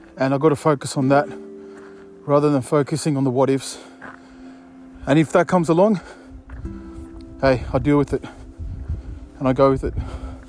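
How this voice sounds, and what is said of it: Out of breath while talking. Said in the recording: “So as you can see, I'm a bit out of breath.”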